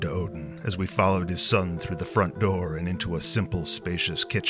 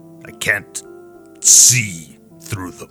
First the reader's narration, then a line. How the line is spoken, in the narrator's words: Thor said gruffly